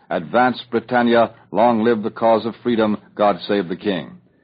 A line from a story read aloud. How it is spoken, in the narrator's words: Churchill's message to the nation when he said, in that resounding voice